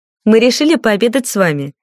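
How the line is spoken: Cheerful. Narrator (Russian): весело сообщила Ильда

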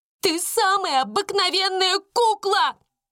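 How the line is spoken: Shouted. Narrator (Russian): закричала она

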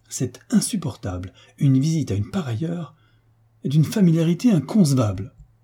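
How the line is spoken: Exclaimed. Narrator (French): Au nom du marquis, le baron s'écria

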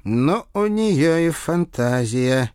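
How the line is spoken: Involuntary breath. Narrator (Russian): невольно выдохнул капрал

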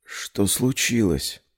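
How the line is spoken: Hoarse whisper. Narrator (Russian): произнесла хриплым шепотом

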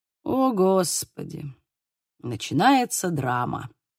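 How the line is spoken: Quiet and irritated. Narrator (Russian): тихо и раздраженно произнес

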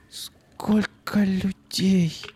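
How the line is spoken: Whispered. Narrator (Russian): прошептала Юлька

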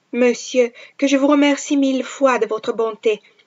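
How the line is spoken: Exclaiming. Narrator (Italian): esclamò

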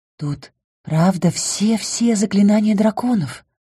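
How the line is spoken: Whisper. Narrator (Russian): прошептала я

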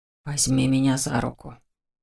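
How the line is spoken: Faint whisper. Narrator (Russian): едва различимый за шумом магической схватки шепот

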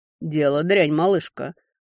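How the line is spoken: Grim, curt. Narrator (Russian): мрачно бросил мужчина

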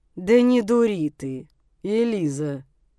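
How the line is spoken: Through gritted teeth. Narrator (Russian): Процедил сквозь зубы Тамиэль

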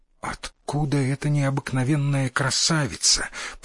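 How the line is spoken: Whispered. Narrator (Russian): прошептал сын Микадо

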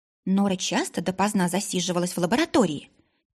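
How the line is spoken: Quiet speech. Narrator (Russian): тихо сказала Ларика

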